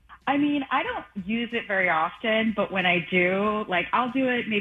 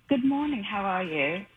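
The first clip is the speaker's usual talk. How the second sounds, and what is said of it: Put-on British accent. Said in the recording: “I just did the British accent”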